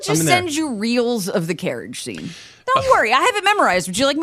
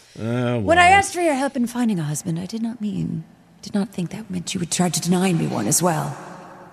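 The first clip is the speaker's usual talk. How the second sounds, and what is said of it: Reciting drama lines in accent. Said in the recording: “you do it in the accent”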